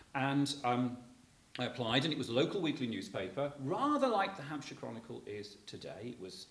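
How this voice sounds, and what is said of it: Black Country English accent. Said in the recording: “That's where the accent's coming from, if you're trying to place me from the Black Country.”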